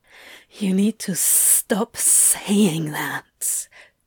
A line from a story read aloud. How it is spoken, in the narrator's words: Crowley hissed